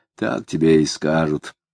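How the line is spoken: Man grumbling. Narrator (Russian): Мужик с чугунными ногами проворчал

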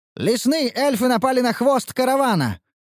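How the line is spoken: Urgent shout. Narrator (Russian): выкрикнул Ханс

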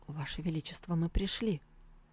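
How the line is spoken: Whisper. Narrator (Russian): Нянь Баюй шепнул

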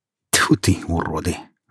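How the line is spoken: Angry muttering to himself. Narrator (Russian): зло проворчал про себя Иван

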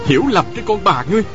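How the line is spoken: Shouting. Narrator (Vietnamese): Tào Vân Kỳ quát lên

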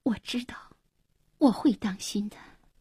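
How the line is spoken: Soft, tearful. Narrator (Chinese): 黄英默然，眼里闪着泪光，轻声说

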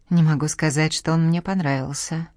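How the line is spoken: Gruff mutter. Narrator (Russian): буркнул Дивлет

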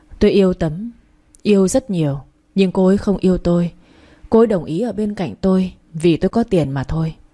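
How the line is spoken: Sighing. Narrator (Vietnamese): Nguyễn Hoàng thở dài rồi nói

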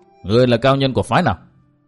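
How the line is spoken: Furious loud shout. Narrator (Vietnamese): Chu Khuyết càng tức giận thêm, liền quát lớn

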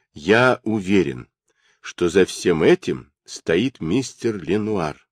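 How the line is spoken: Plain. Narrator (Russian): сказал Дик

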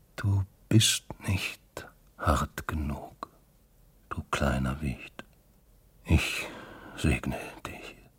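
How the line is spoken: Very quiet, barely slurred. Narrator (German): sagte sehr leise und fast ohne zu lallen

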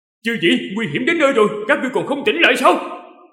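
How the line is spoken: Deep-voiced shout. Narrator (Vietnamese): Từng Mục trầm giọng quát

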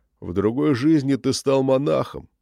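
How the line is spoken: Hoarse laugh. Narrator (Russian): Иоанн хрипло рассмеялся

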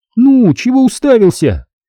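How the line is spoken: Girl shouting. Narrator (Russian): на чисто русском языке крикнула девушка из воды

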